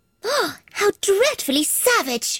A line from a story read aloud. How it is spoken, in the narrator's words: exclaimed Alice